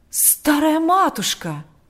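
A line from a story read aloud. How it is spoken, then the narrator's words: Horrified exclamation. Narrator (Russian): воскликнул отец Кирилл в ужасе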